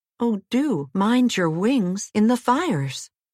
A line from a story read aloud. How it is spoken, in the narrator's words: George and Jane cried out together